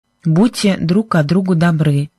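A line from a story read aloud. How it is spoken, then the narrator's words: Plain. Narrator (Russian): сказала Сьюзен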